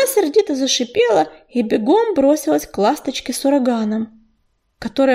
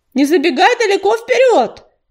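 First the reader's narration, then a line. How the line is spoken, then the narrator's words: Call after someone. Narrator (Russian): крикнул ей вслед Ежевика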